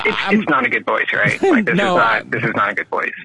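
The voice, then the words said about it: Deliberately lowered deep radio voice. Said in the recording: “I can go down to here and have my radio voice if I want it.”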